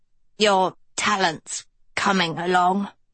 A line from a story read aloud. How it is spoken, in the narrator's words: Hester croaked